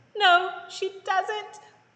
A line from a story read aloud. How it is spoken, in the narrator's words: Cinderella wailed